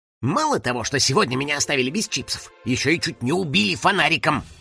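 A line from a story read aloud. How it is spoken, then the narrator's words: Grumbling. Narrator (Russian): проворчал Финик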